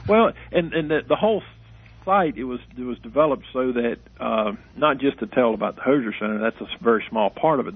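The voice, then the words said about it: Hard-to-understand North Carolina accent. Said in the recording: “he's out of North Carolina ... most people can't understand my accent.”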